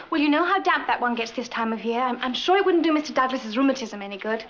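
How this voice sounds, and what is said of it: English accent. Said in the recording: “She speaks with an accent... My daughter was raised and educated in England.”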